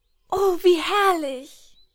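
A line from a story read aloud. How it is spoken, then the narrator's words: Delighted exclamation. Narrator (German): rief sie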